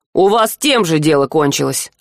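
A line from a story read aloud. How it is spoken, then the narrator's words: Snapped. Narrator (Russian): огрызнулся Сива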